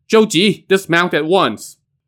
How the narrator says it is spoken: Zhang Guifang now shouted

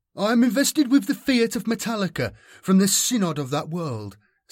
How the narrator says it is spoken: said triumphantly

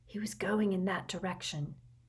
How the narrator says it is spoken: murmured Harry as quietly as possible, so that the humming Hagrid would not hear them

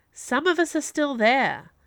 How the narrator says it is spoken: Viola said sharply

